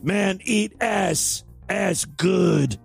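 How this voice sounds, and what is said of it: Caveman voice. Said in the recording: “I don't know why I'm talking like a caveman.”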